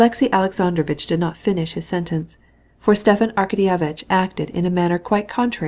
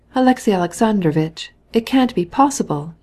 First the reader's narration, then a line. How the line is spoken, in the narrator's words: he cried, with pain expressed in his face